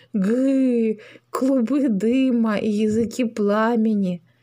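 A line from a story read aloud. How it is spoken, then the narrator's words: Joyful dragon voice. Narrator (Russian): драконья голова радостно произнесла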